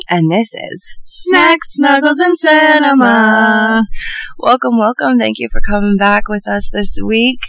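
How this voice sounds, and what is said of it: Sick, run-down voice. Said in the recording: “You can probably hear it in my voice. I've had a little bit of a rundown week... any sneezes or icky noises”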